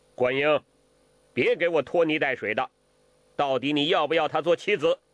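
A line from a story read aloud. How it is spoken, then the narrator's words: Sharp irritated voice. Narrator (Chinese): 心里一烦，厉声地说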